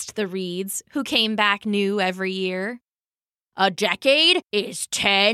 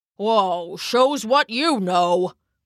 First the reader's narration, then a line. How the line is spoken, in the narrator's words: rumbled the oak